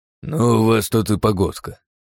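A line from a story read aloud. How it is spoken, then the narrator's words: Grumbling. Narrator (Russian): проворчал он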